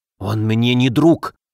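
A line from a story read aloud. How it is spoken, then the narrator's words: Hissed. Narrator (Russian): прошипел Соболев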